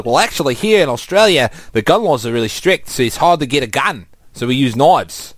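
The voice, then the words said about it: Put-on Australian accent. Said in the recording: “I was actually practicing my Australian accent this week.”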